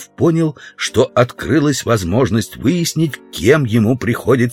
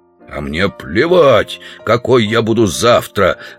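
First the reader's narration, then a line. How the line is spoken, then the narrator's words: Growl. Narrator (Russian): зарычал Удалов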